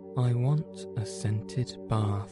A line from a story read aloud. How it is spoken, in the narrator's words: he said